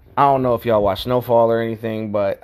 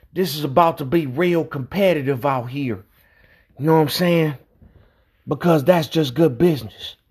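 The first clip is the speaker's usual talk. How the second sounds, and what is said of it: Imitates a TV character's voice. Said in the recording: “In my Franklin Saint voice. ... I got this man's voice down pat”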